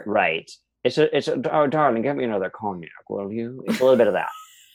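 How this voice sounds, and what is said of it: 1930s gangster-style put-on voice. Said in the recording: “You're talking like a 1930s gangster.”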